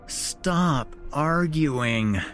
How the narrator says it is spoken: you groaned

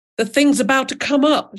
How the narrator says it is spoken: shouted the father

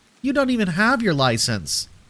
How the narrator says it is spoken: she responded back sharply

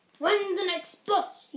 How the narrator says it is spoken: grunted

